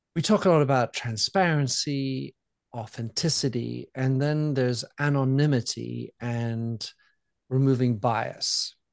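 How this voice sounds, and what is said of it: French accent. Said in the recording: “from my accent you hear that I je suis très français”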